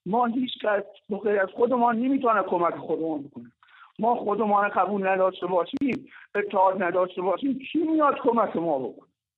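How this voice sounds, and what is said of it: Sweet regional Persian accent. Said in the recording (Persian): “لهجه شیرینت ... این گویش ... خیلی شیرینه لهجهتون”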